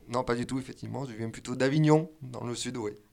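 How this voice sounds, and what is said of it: Slight southern French accent. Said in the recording (French): “nous entendons un petit accent qui est hors, comment on va dire, isérois”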